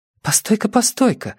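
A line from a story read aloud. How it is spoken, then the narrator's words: Excited interruption. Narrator (Russian): взволнованно перебила Симона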